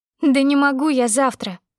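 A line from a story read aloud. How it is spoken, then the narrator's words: Sobbing. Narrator (Russian): всхлипнула я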